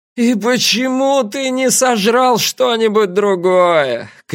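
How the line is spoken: Shouting up to sky. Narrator (Russian): крикнул он, запрокинув голову к небу

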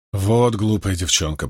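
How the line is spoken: Grumbling. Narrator (Russian): проворчала Бэйр

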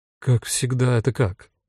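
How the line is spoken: Confused question. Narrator (Russian): растерянно спросила Рута

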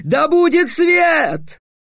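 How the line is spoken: Panicked yell. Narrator (Russian): В панике завопил

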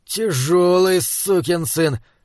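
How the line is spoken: Breathless exhale after exertion. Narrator (Russian): выдохнул Хорза, которому с помощью Унаха Клоспа и Авигера удалось наконец усадить Ксоксарла

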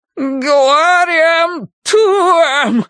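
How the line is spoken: Strange shriek, breaking voice. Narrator (Russian): завопил он странным, срывающимся на визг голосом

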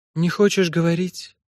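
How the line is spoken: Sigh. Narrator (Russian): вздохнула та

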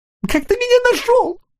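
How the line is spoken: Sobbing. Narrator (Russian): всхлипнул таракашка

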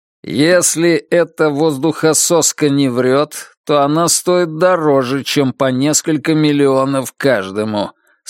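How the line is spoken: Plain. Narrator (Russian): сказал Стилс

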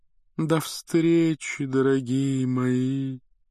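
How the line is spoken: Sepulchral breathy voice. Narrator (Russian): за могильным голосом выдохнула Трелони

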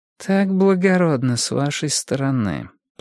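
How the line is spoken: Mumble. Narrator (Russian): пробормотала Бонни

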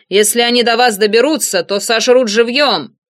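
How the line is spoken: Shouted. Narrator (Russian): Находившийся в кабине Монро крикнул

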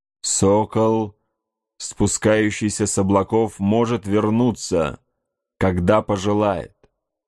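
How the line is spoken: Plain. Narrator (Russian): сказал он

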